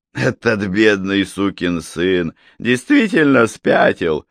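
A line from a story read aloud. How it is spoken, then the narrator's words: Short guffaw. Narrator (Russian): Норберт коротко хохотнул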